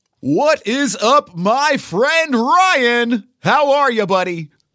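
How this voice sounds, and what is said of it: Carnival pitchman voice. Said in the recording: “my theme park voice ... Carney Pitchman thing going on”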